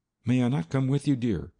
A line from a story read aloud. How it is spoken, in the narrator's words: I pleaded